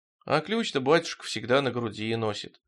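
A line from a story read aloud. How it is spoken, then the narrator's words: Dejected voice. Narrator (Russian): упавшим голосом сказал Тихон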